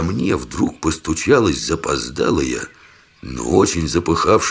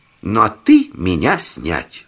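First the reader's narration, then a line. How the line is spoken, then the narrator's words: Joyful, from above. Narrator (Russian): Радостно сообщили сверху добавили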